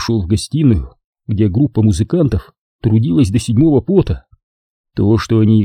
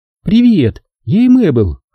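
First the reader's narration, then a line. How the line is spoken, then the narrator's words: Playful introduction, giggling. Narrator (Russian): задорно представилась она и хихикнула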